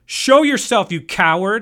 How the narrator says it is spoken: he yelled, and it echoed through the forest in an eerie, empty fashion

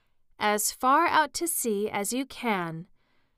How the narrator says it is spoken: shouted the Griffin

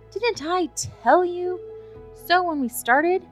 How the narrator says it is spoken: cried Sherlock Holmes with a laugh

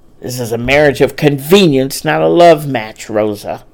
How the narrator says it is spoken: Brad growled

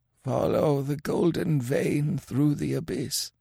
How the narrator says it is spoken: muttered Kemsa

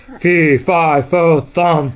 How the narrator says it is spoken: thundered the giant

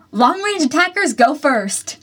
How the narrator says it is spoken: he shouted

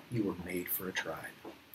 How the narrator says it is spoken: he whispers to us

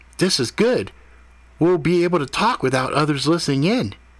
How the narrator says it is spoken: Ethan continued excitedly

